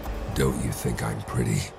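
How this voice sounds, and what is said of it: Hoarse creepy voice. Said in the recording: “he said in a hoarse voice.”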